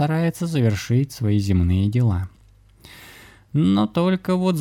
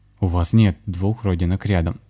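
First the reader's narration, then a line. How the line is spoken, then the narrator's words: Peremptory declaration. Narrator (Russian): безапелляционным тоном заявил он старушке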